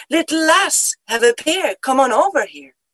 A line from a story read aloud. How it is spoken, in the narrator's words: he'd exclaim